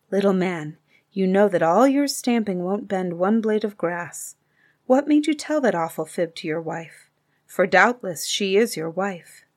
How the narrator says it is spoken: bent his head and whispered very softly

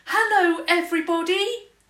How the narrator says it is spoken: she shouted

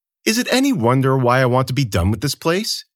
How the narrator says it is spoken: the Emperor said

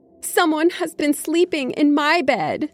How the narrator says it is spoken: she cried in her medium-sized voice

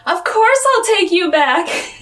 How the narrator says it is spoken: she yells

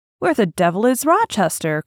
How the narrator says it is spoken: cried

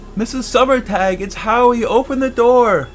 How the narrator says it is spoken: I stood back and shouted up

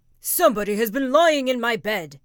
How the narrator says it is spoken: said the great big bear in his great rough gruff voice

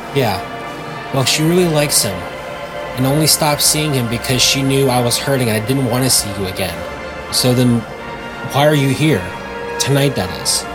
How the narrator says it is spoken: Betty murmured a response, saying

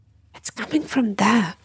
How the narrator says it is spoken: hissed

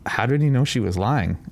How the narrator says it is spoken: asked Amanda

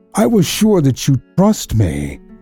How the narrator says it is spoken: she cried, with a great sigh of relief

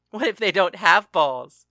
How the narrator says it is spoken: Paris laughed

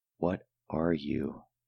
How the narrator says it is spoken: I replied in a half whisper

